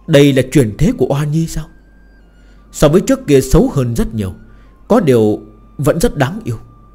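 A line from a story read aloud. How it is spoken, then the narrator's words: Sighing. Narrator (Vietnamese): thở dài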